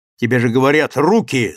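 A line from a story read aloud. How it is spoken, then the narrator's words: Angry. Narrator (Russian): зло сказал Самохин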